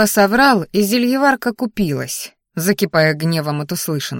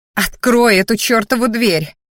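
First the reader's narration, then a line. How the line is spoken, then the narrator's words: Growled. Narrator (Russian): рыкнула она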